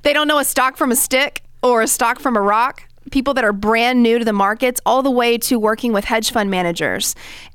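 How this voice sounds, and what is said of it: Texan accent. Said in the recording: “like we say in Texas, which is where I'm from, obviously, with this accent”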